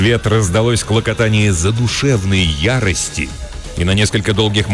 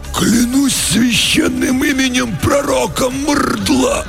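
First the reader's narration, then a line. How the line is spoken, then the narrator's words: Choked wheeze, two voices. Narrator (Russian): В унисон просипели оба десантника перехваченными горлами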